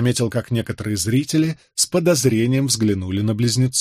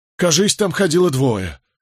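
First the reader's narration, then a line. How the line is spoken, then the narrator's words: Breathless. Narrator (Russian): выдохнул, наконец, пастух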